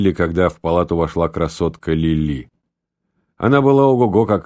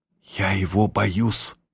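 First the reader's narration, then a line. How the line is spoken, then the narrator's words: Whisper. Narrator (Russian): шепнула она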